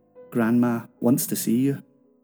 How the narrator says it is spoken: He said, calmly

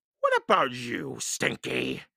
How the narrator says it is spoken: Captain Bones roared

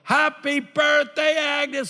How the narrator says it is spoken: I yell

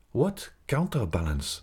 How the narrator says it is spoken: asked Raoul

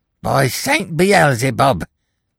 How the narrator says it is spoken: he exclaimed

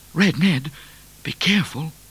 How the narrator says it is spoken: whispered Midnite, who was very worried

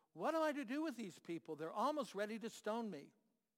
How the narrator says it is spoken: Moses cried out to the Lord

